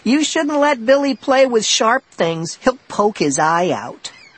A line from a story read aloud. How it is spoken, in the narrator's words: Sheena shouted